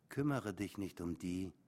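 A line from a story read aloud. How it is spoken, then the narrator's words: Gentle. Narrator (German): sagte Michelle sanft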